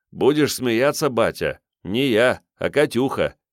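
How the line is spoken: Laughing. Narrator (Russian): И сам засмеялся я

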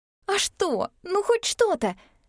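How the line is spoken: Pleading. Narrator (Russian): взмолилась Мин

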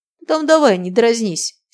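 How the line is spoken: Angry reply. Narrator (Russian): сердито отозвался Сергей

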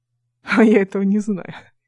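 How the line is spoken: Giggling. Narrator (Russian): хихикнул Дмитрий

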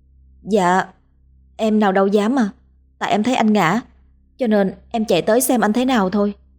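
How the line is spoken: Stammering. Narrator (Vietnamese): Hoa ấp úng nói

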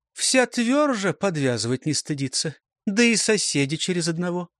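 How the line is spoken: Even voice. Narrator (Russian): ровным голосом ответила Корениха

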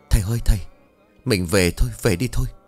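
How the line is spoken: Trembling woman. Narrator (Vietnamese): Bà Thắm một lần nữa run rẩy bảo

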